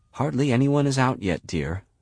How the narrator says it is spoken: whispers Madame Manic

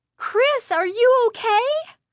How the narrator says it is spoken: Lindy cried

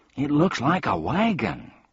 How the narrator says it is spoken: cried Milo excitedly

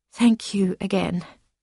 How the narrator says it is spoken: said very quietly

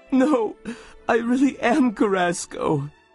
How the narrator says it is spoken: sobbed the student

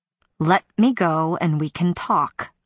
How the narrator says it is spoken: said through clenched teeth

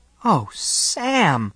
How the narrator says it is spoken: Alice cries

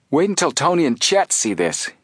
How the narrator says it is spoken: Joe exclaimed

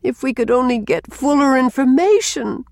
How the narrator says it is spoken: moaned Rilla

